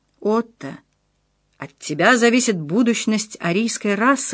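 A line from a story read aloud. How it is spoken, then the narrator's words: Whispering. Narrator (Russian): шептал Ханс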